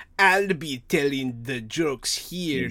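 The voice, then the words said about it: Put-on German accent. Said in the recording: “That's my German accent.”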